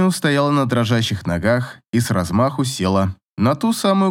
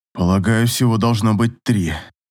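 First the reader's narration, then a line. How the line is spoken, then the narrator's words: Grumbled. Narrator (Russian): буркнул Рассел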